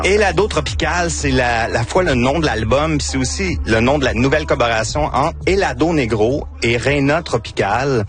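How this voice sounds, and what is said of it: Victoriaville regional French accent. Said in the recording (French): “mon accent ... c'est mon accent de Victoriaville”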